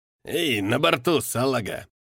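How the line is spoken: Contemptuous mutter, old man. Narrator (Russian): с презрением процедил старик

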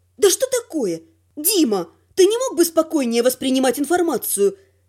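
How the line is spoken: Sharp request. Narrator (Russian): резко попросила я

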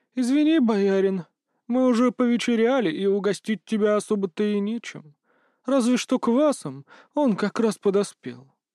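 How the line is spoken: Toothless mumbling old woman. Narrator (Russian): прошамкала старуха

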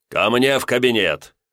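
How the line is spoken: Barked. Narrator (Russian): рявкнул я

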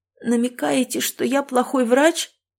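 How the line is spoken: Hoarse, choked with hurt. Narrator (Russian): От набухающей в груди обиды я почувствовала удушье, с которым хрипло произнесла

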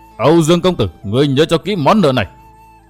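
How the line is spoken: Fierce roar. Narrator (Vietnamese): Sáu thần gầm giống dữ dằn

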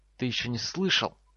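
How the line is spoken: Hissed. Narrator (Russian): прошипел декан его факультета

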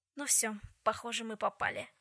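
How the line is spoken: Sighing. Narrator (Russian): вздохнул Джем

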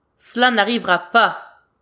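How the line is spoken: Distant shout. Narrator (French): crie-t-il de loin

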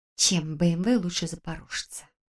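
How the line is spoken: Girl quietly muttering to herself. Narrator (Russian): тихо сама себе пробормотала девушка

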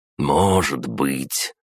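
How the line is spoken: Through gritted teeth. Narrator (Russian): процедил Игорь

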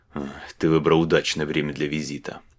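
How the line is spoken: Mutter. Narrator (Russian): буркнул Вехтен

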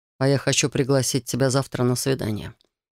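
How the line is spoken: Quiet reply. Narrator (Russian): тихо ответил Райт

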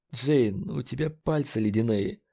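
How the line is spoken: Hoarse voice. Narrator (Russian): хрипло сказал Ледж

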